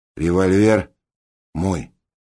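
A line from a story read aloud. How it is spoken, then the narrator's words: Plain. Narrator (Russian): сказал Раст Петрович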